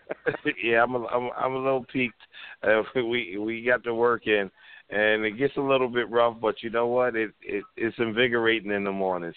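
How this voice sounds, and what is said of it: Tired, worn-out voice. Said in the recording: “you're dog tired right now. I can tell in your voice.”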